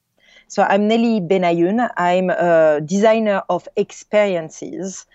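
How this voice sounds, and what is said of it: French-accented English. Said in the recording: “I am obviously sounding really French. I am French, but I'm based in London.”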